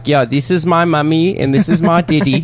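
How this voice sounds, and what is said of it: Put-on South African accent. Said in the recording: “I talked like a fucking South African.”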